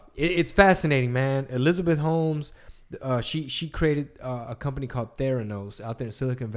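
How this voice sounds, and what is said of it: Usual voice. Nothing is said of it.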